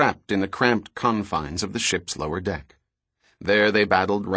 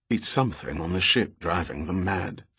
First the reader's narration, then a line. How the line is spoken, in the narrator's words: Fairholme said quietly